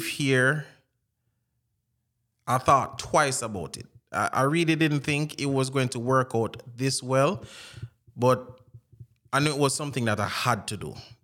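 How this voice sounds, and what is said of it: Jamaican accent. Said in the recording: “I have my Jamaican accent and I do use it”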